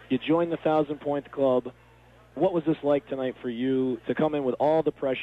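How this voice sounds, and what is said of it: Hoarse, strained voice. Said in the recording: “I've lost my voice here and all the excitement tonight”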